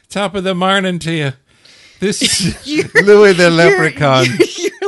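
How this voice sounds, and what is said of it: Drunk-sounding Irish leprechaun voice. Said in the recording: “Your leprechaun always sounds drunk. ... Your Irish accent is good, but you sound drunk all the time.”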